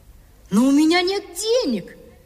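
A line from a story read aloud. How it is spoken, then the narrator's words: Boy exclaiming. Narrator (Russian): воскликнул мальчик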